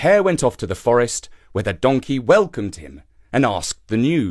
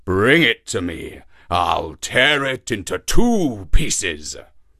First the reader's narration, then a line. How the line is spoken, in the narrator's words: growled the lion fiercely